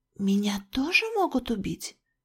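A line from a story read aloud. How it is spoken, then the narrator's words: Whispered question. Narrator (Russian): почему-то шепотом спросила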